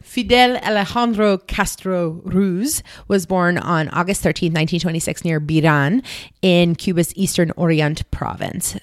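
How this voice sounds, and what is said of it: French accent. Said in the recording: “my Spanish pronunciations with my French accent”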